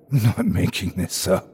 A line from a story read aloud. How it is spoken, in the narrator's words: I hissed